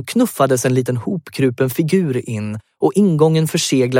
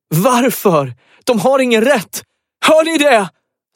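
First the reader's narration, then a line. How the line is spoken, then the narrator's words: Screamed. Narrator (Swedish): skrek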